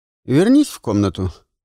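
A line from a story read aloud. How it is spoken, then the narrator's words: Stern command. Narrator (Russian): строго приказал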